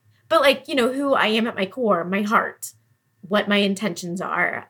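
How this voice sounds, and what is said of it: Teary, emotional voice. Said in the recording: “I don't know why I'm getting teary”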